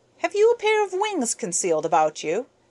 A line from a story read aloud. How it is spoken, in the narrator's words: I asked, laughing at his folly